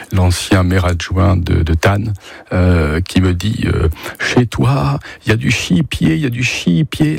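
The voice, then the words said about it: Put-on strong regional French accent. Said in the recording (French): “L'accent très prononcé”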